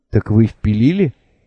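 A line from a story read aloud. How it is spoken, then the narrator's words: Timid, hesitant smiling inquiry. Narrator (Russian): робко осведомился, нерешительно улыбаясь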